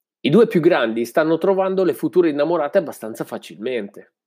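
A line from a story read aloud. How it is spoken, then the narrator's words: Plain. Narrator (Italian): disse Veico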